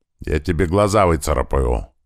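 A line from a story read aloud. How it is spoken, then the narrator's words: Angry. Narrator (Russian): зло сказала Света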